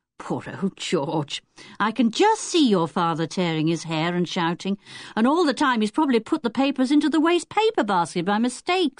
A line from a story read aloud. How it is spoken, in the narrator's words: said Dick with a chuckle